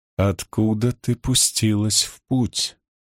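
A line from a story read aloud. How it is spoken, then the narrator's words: Slow question. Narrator (Russian): медленно спросила Сине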